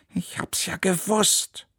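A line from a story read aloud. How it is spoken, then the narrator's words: Growling. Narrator (German): knurrte Neunauge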